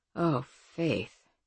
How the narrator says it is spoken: he groaned extravagantly and then said

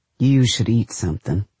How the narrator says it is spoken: he says

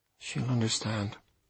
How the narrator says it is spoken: I said quietly

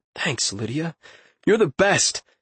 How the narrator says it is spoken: she chuckled

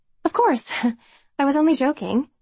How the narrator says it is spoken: She quickly says

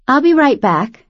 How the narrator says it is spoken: she said brightly

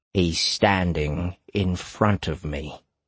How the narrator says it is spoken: Hatter said gravely

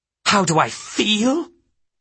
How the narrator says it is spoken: she snapped

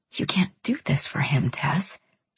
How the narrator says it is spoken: she whispered after a while

